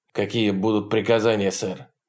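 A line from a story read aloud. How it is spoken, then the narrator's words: Curt question. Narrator (Russian): спросил Холкомб отрывисто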